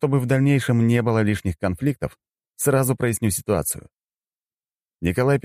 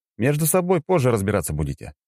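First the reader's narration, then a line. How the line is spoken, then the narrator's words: Calm. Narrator (Russian): спокойно произнес я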